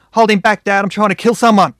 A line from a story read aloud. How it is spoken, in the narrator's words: yelled